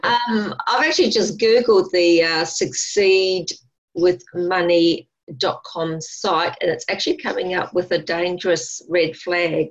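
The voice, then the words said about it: Australian accent. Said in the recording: “can you speak to us in Australian, please?”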